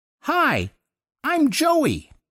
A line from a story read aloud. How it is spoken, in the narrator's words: the kid piped up out of nowhere in this reedy Looney Tunes sort of voice